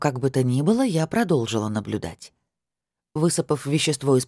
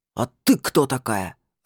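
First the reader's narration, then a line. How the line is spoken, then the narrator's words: Growled. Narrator (Russian): рыкнул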